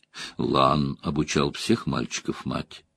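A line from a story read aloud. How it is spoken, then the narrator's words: Calm reply. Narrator (Russian): спокойно отвечала Морейн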